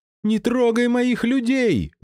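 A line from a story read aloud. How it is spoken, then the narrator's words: Scream. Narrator (Russian): завопила судья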